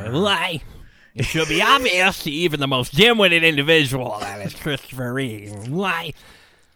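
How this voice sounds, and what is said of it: Convincing nerdy cartoon professor voice. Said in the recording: “I'm crossing Jerry Lewis with... I mean, Professor Frink is based off of Jerry Lewis ... that impersonation is so good, it almost sounds like you have a soundboard with you. That's how good it is. ... It's very good.”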